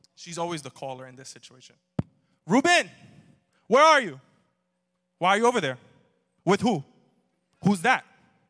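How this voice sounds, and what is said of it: Interrogating mother's phone voice. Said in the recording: “two kinds of phone voices my mom has. She's either the interrogator ... That's her phone voice. It's interrogator.”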